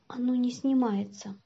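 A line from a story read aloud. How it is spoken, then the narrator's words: Barely audible. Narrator (Russian): чуть слышно сказал Антон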